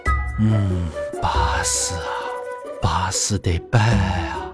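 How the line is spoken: Admiring sigh. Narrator (Chinese): 宝玉又深吸了一口气，然后感叹道

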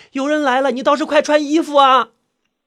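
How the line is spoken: Shouting. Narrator (Chinese): 小昭也叫道

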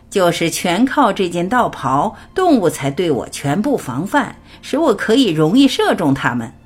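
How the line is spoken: Hunter, laughing. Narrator (Chinese): 猎人笑着说

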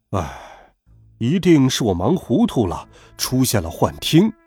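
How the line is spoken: Sighing. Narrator (Chinese): 校长叹了口气

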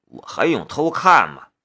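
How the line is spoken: Muttering. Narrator (Chinese): 夏雷嘟囔的道

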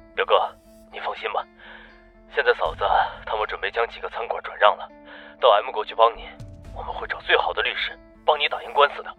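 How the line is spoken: Hoarse voice. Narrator (Chinese): 东国声音嘶哑的说道

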